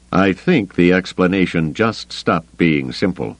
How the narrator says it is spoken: he said grimly

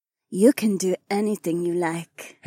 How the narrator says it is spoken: Heiwan purred

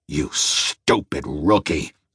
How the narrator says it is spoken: he growled

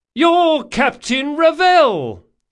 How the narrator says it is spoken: shouted the woman

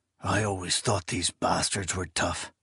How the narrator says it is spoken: Bloody Dinch whispered

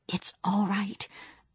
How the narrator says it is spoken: whispered

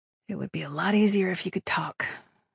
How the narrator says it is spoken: she murmured

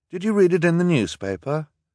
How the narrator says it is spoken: asked nervously

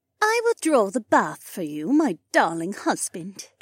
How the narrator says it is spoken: Janel purred

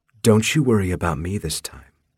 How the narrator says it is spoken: she purred

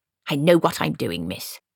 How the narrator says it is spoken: snapped Granny

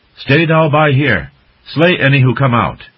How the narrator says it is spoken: calling in a loud voice so the water rats could hear

